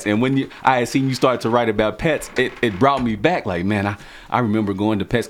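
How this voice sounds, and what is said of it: American country accent. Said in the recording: “because I got a country accent”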